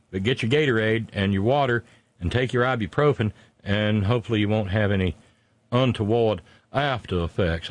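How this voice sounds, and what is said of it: Exaggerated rural Southern US accent. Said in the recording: “Oh, my God, I'm stuck in my cornpone accent.”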